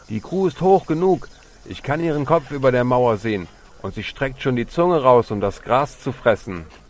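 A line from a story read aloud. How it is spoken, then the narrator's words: Calling out. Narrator (German): rief einer, der ganz hinten am Seil zog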